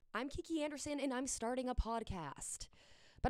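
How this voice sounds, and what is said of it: Formal news reporter voice. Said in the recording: “I definitely talked with my news voice. That's my news voice.”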